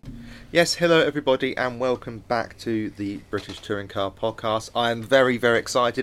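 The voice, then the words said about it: Nasal, congested voice from cold. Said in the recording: “I have got a cold, so I do apologise in advance for the even more nasally sounds of my voice”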